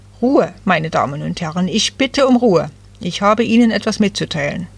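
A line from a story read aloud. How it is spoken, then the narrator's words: Stern man calling out. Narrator (German): einer der streng aussehenden Männer rief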